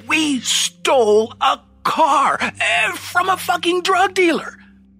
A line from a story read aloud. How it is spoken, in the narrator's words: I said, voice quavering